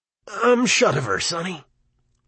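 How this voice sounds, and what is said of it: Hoarse old man's voice. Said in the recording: “he said hoarsely.”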